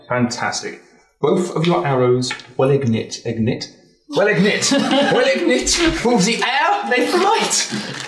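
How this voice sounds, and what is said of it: Stereotypical German accent. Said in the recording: “Stereotypical German accent?”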